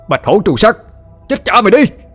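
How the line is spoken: Frenzied loud shout. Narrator (Vietnamese): điên cuồng, miệng quát lớn

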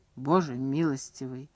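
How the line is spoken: Quiet. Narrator (Russian): тихо сказал Таннер

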